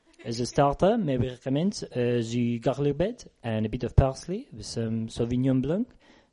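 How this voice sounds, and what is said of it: Fake French waiter accent. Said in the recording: “the waiter just happens to have a French accent”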